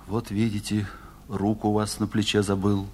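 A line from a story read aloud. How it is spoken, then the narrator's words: Low, muffled, affectionate voice. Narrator (Russian): глуховатым ласковым голосом сказал он докторши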